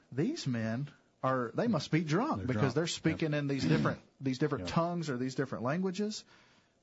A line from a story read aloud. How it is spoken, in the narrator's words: people that were mocking, and they were saying